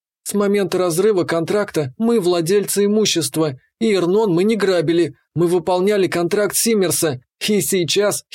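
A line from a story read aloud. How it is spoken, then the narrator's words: Giggling. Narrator (Russian): хихикнула Котя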